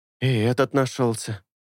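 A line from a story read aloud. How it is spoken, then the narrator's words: Confused drawl. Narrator (Russian): еще более растерянно протянул Эйнар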